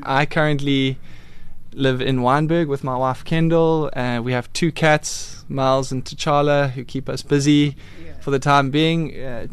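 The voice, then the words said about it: Slight KwaZulu-Natal South African twang. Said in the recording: “I am originally from KZN. I still have a bit of a KZN twang to my accent”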